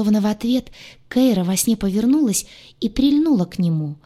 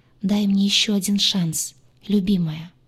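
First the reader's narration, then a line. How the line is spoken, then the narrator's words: Tender whisper. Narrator (Russian): шепча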